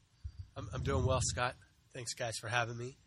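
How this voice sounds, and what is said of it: Congested, slightly deeper voice. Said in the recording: “I'm recovering a little bit from a cold, so if I sound a little congested ... that gives you that deeper voice”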